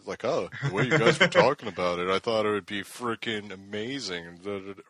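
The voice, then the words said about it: Impression of the co-host. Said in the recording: “that's a real good impression of me. That's excellent.”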